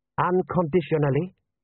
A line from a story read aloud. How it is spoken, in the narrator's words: said General Ashau sharply